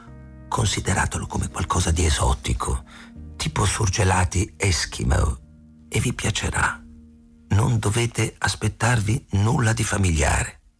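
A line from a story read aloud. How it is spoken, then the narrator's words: Whisper. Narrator (Italian): Ayla sussurrò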